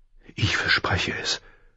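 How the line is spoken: Whisper. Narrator (German): flüsterte er

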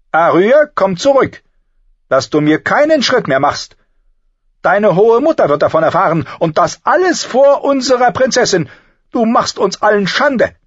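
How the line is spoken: Calling after. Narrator (German): rief ihr nach

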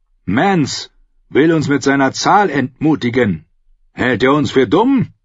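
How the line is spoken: Bellowing. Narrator (German): brüllte er

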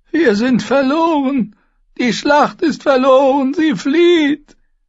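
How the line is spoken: Old woman wailing. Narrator (German): jammerte eine alte Frau

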